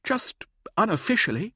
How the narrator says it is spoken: Mirza pleaded

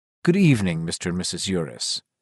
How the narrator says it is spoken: the maitre d' always greeted them with a quietly respectful

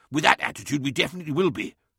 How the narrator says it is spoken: snapped Lemuel, his patience wearing thin

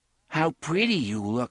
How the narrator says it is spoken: sighed Thorin

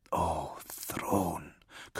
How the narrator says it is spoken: Kalia whispered

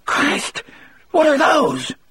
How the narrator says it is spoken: Dean asked in a shrill, scared voice

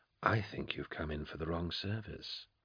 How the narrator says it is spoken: the man said gently

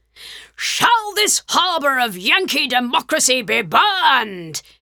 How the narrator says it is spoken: he roared, to the jubilation of the men

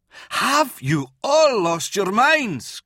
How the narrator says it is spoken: Kurth yelled

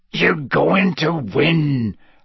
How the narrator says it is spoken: Hagrid growled

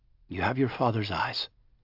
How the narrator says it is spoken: David said, his voice gentle

